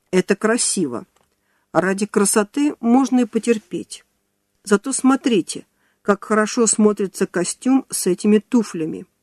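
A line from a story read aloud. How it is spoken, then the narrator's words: Stern. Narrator (Russian): Филановский ... когда кто-то из женщин попытался пожаловаться на то, что ей неудобно, строго сказал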